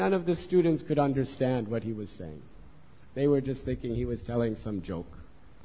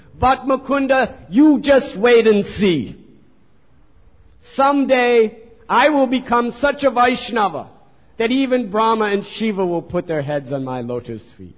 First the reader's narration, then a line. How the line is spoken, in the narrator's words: started speaking very loudly for everyone to hear